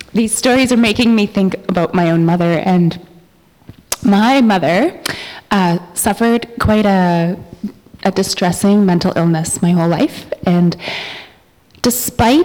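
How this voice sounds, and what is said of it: Teary, emotional voice. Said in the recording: “I'm all teary”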